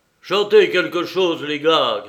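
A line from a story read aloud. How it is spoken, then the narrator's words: Shouting. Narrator (French): cria-t-il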